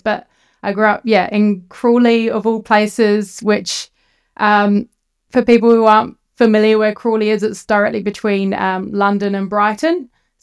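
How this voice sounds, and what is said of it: British accent with Kiwi influence. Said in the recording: “they hear my accent and they're like, oh, you Kiwi. And like, I'm technically British, but culturally Kiwi”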